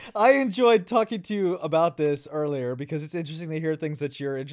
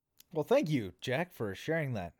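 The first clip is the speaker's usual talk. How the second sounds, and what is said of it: Salesman-like delivery. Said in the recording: “You sound like a salesman.”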